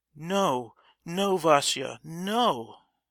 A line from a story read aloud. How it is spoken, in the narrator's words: cried Zina